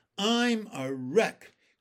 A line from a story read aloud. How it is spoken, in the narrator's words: groaned the centipede